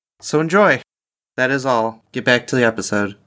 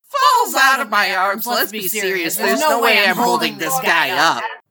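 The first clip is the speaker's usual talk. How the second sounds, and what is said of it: Imitates another person's voice. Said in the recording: “recording everything she said in my own impersonation of her. Like this example here.”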